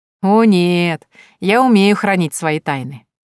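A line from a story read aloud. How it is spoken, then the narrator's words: Laughing. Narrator (Russian): засмеялась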